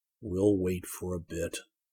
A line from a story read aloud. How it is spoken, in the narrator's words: Zircon said quietly